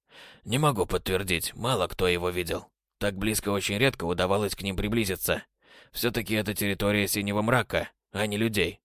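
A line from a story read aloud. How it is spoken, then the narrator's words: Plain. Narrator (Russian): ответил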